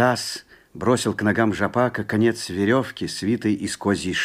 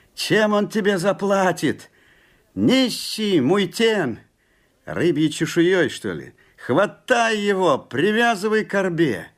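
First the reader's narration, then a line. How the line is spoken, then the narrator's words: Crowd shouting. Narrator (Russian): Закричали муйтены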